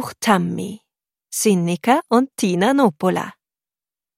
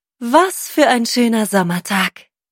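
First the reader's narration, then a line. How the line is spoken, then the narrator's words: Sighing. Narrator (German): seufzte Hilla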